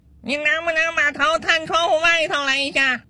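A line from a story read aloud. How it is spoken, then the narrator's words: Child shouting loudly. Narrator (Chinese): 自己的小儿子在大声喊他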